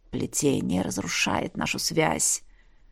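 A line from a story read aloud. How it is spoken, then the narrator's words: Hissed, dragon. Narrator (Russian): прошипел дракон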